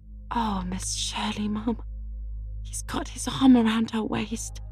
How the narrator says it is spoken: whispered Charlotta the Fourth delightedly

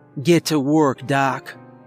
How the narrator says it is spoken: she said coldly

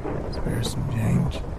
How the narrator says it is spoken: He rasped

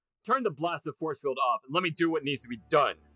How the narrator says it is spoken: Erica shouted

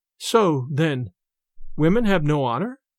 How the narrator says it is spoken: The young girl, turning very pale, faltered out

